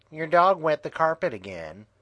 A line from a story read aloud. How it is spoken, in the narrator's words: said Crystal